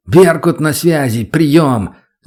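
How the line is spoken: Shouting into radio. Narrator (Russian): закричал в рацию

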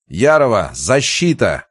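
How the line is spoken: Shout. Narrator (Russian): крикнул

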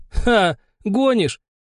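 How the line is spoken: Laughing. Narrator (Russian): снова рассмеялся Михей

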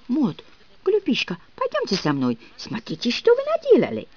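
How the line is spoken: Muttering. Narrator (Russian): Мадам бормотала

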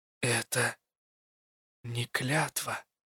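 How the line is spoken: Stunned breathless whisper. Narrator (Russian): прошептала я, когда понимание обрушилось на меня тяжелым камнем, едва не выдавив воздух из груди

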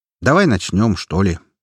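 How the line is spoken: Calm reply. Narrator (Russian): спокойно ответил я

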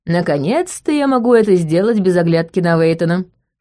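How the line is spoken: Scoffing grunt. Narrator (Russian): хмыкнул он

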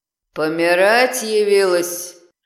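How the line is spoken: Familiar hoarse voice. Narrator (Russian): раздался знакомый хриплый голос

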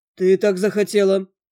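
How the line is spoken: Dry reply. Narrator (Russian): сухо прозвучало в ответ

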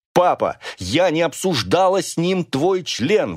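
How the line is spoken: Indignant shout. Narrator (Russian): в возмущении закричала я

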